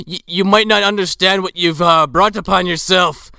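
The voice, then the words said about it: Put-on Irish accent drifting Scottish. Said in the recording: “I'm turning Scottish as this accent continues, and I actually am not that bad at an Irish accent, but I'm fucking this up royally.”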